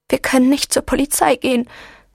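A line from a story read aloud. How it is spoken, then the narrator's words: Sobbing. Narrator (German): hatte ihre Mutter ihr schluchzend erklärt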